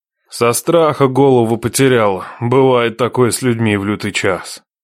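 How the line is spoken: Sighed. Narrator (Russian): вздохнул Нечай

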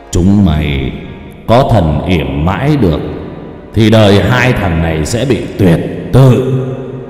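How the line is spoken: Booming deep voice. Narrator (Vietnamese): giọng ồm ồm vang lên

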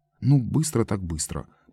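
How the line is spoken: Muttering. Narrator (Russian): пробормотал Лойс

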